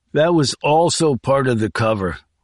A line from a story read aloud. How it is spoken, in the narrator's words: Wingo said miserably